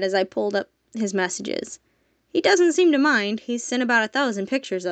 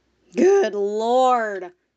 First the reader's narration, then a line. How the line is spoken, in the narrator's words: Torkin groaned